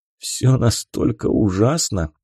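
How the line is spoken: Forced smirk. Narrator (Russian): Попытался выдавить из себя ухмылку Хиро

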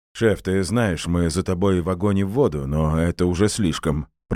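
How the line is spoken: Displeased grumble. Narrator (Russian): пробурчал Саша

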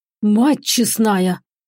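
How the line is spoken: Amazed exhale, big man. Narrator (Russian): выдохнул здоровенный дружинник, разинув от изумления рот

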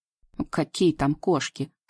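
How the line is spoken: Snorting. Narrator (Russian): фыркнул Сивый

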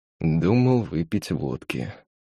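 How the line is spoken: Hesitant. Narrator (Russian): неуверенно произнес он

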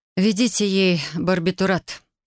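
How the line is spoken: Said, long exhale. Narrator (Russian): сказала я и длинно выдохнула

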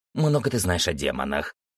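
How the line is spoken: Creature snorting. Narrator (Russian): фыркнуло существо

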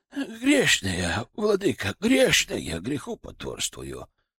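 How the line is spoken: Old abbess muttering. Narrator (Russian): бормотала настоятельница монастыря

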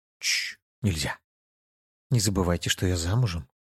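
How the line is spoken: Whisper. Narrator (Russian): только прошептал

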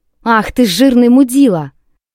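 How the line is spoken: Shouted. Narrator (Russian): Крикнула в окно этому танкисту

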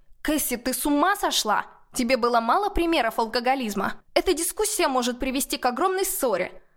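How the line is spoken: Snapping retort. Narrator (Russian): Огрызнулась я

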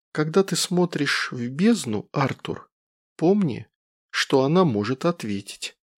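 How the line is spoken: Quiet. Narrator (Russian): Клара тихо сказала

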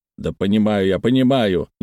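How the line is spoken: Displeased snort. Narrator (Russian): недовольно фыркнул мистер Глоссоп

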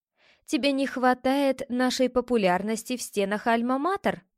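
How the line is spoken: Laughing. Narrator (Russian): рассмеялась я

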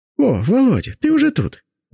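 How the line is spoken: Exclaimed. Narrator (Russian): воскликнула Синявская

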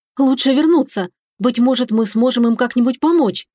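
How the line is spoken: Agitated speech. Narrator (Russian): взволнованно произнесла я

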